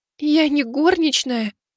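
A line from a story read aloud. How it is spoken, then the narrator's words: Tearful. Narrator (Russian): Сквозь слезы отозвалась Мэйли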